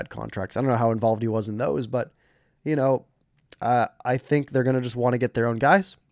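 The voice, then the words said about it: Strained, fading voice. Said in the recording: “I'm going to cough again really quick. ... Losing my voice.”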